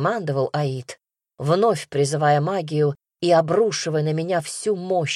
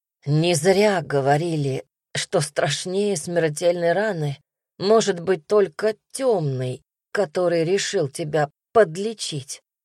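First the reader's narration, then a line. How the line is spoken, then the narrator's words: Hoarse wheeze. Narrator (Russian): прохрипел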